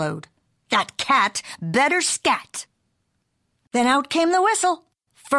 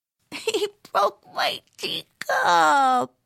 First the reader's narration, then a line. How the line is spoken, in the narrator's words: whined Jilly Boo